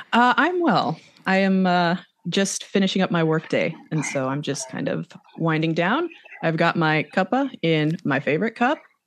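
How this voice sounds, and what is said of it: Slight foreign accent twang. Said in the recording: “I can detect a small little twang of a accent there... you're not from the UK”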